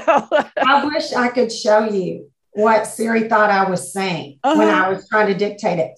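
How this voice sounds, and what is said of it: Southern American accent. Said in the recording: “Siri didn't like my Southern accent”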